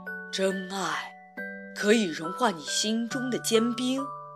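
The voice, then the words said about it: Deep, rich voice. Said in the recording (Chinese): “他用浑厚的声音说道”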